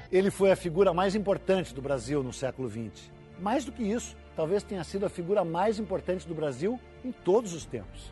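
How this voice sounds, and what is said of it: Heavy gaúcho Brazilian accent. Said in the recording (Portuguese): “é com esse sotaque carregado aí que você ia ouvir ... com esse sotaque do Peninha ... sotaques gaúchos”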